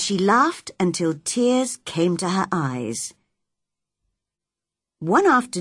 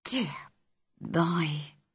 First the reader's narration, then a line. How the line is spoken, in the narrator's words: Susan Sowerby whispered